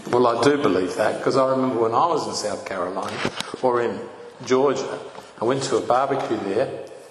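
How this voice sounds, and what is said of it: Australian accent. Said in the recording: “they were fascinated by my accent, of course. And where do you come from? Australia.”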